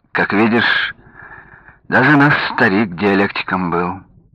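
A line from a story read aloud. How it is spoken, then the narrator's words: Sad remark. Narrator (Russian): печально заметил Павел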